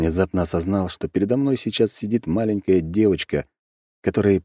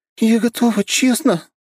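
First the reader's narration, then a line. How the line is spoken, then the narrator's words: Sobbing reply. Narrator (Russian): всхлипнула в ответ Нюша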